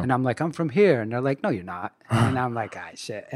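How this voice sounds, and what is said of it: Mixed New York and Scottish accent. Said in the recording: “you have this crazy accent ... I can't really make it out ... there's a New York side and then there's the Scotland side”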